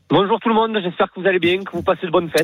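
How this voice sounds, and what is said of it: Sing-song regional French accent. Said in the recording (French): “le petit accent chantant du sud... De Lorraine, le monsieur... Le nord de la Lorraine.”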